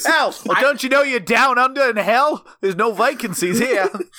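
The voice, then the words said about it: Put-on Australian accent. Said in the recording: “You guys have gone like from Brooklyn tough guy to southerner... Like every time you put on a voice.”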